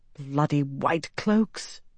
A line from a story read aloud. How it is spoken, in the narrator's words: Elaine muttered under her breath